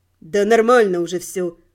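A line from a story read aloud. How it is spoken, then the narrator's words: Snorting. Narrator (Russian): хмыкнул он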